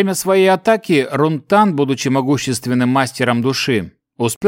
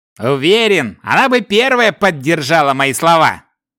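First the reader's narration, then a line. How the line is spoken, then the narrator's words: Amused snort. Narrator (Russian): хмыкнул Шакс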